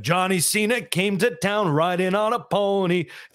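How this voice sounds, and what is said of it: Imitates another person's singing voice. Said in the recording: “I've been singing The Rock, singing about John Cena ... I can't help but do these impressions”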